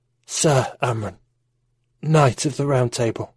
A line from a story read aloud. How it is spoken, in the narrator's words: gasped Arthur